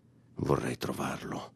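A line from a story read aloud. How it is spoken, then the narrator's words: Murmuring. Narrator (Italian): mormorò PM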